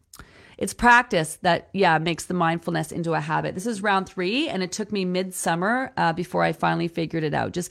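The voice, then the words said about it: Slightly nasal, congested voice. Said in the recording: “I'm feeling a little run down. You can tell my voice is a little bit, like, nasally.”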